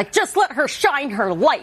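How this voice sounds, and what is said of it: Impression of Jamie's red-carpet voice. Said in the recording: “such a good impression ... I'm a great mimic.”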